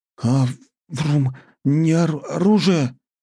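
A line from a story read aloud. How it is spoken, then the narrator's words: Agitated boy stuttering. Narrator (Russian): К разволновавшемуся мальчишке вернулось его уже подзабытое заикание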